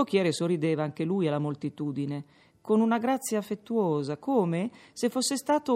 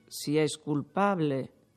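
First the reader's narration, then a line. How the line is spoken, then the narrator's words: Whispered aside. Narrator (Italian): soggiungeva sottovoce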